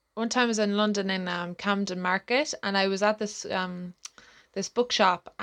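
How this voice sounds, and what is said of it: Irish accent. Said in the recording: “he recognized my accent”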